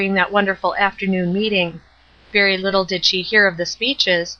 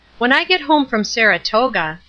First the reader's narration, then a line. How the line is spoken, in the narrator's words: said at last, turning uneasily in her seat, annoyed at the persistency of her thoughts